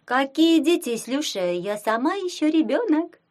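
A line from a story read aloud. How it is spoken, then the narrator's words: Giggle. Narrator (Russian): хихикнула она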